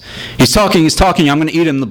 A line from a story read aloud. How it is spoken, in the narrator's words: the blonde shouted